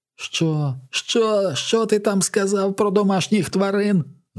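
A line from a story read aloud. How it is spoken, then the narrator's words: Shouted. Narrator (Ukrainian): закричав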